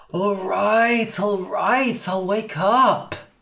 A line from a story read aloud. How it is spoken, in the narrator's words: groaned Cass